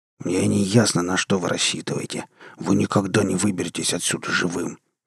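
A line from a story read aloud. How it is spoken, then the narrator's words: Hissing. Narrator (Russian): прошипел Громов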